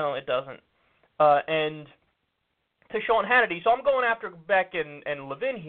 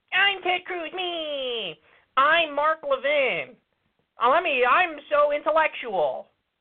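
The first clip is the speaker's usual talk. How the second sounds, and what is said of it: Whiny Ted Cruz and Mark Levin impression. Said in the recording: “my Mark Levin impression and my Ted Cruz impression is very similar. They both sound like whiny little punk bitches ... My really weird voice”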